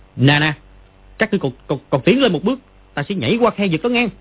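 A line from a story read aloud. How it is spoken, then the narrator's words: Loud shout. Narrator (Vietnamese): Nó bèn quát to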